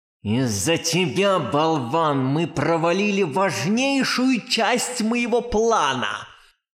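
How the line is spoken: Angry snake-like hiss. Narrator (Russian): Шипела, как змея, злая Манефа

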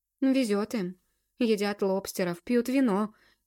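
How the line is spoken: Sigh. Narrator (Russian): вздохнула я

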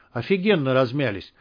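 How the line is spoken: Gloomy. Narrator (Russian): мрачно сказала Марина

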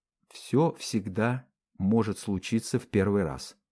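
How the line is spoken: Soft gentle voice. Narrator (Russian): мягко сказала Мари

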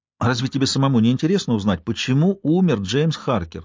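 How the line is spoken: Plain. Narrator (Russian): спросила я

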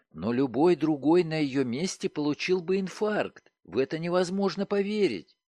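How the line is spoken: Interrupting exclamation. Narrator (Russian): Не дав мне закончить, она воскликнула

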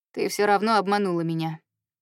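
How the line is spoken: Cold reminder. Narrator (Russian): холодно напоминает он

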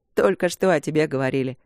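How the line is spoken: Chuckle. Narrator (Russian): хохотнул Март от окна

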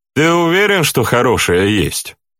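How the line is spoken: Gloomy question. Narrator (Russian): спросила Громуша самым мрачным тоном

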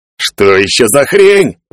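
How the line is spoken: Howling. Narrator (Russian): взвыл Саоб

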